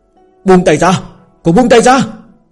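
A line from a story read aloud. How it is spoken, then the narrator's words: Angry shouting. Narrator (Vietnamese): tiếng hét giận dữ của Thương Triều Tông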